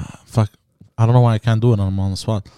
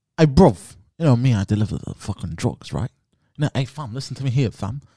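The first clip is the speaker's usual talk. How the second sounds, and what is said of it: Put-on London gangster accent. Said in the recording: “You have to talk in the lock, stock, and two smoking barrels accent because he's in Britain.”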